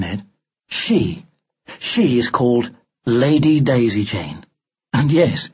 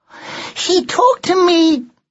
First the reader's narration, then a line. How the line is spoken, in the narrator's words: the child cried